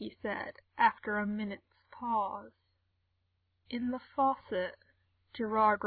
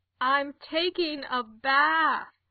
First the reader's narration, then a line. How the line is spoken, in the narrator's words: Gerard said, loudly enough for her to hear